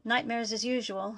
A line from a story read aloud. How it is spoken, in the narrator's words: replied